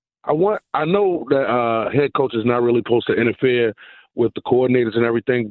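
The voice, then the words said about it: Smooth radio DJ-like voice. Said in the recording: “he can be called DJ Voice. Good pipes there.”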